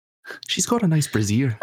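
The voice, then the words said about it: Put-on Irish accent. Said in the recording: “I'm such shit at Irish accents, so I'm going to let you do that one. It was beautiful, though. ... I thought it was very good, too. I thought it was pretty nice.”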